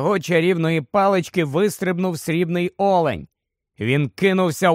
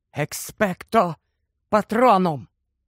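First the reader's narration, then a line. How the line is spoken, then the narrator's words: Whisper. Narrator (Ukrainian): він прошепотів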